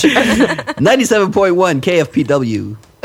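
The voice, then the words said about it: Deep radio announcer voice. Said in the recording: “radio voice”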